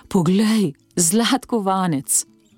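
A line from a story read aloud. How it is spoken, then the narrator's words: Sighing. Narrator (Slovenian): Salvatore je vzdihnil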